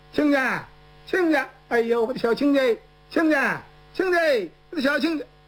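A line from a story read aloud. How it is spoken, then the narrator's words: Shouting. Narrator (Chinese): 蒋平他就喊开了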